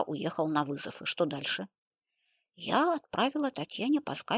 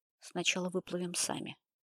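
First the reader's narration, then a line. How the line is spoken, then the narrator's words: Calm speech. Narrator (Russian): спокойно сказал Сергей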